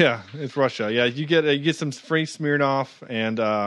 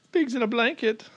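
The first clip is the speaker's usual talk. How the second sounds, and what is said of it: Put-on German accent. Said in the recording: “that's my only German accent I can do”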